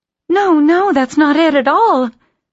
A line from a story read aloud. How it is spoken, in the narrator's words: she cried